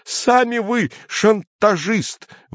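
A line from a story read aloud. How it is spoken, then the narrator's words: Agitated angry outburst. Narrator (Russian): выкрикнул цензор, снова покрываясь пятнами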